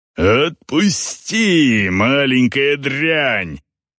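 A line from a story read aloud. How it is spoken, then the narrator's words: Growling. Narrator (Russian): рычал Эйнар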